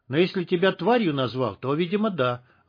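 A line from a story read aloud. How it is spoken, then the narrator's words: Plain. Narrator (Russian): ответил Шах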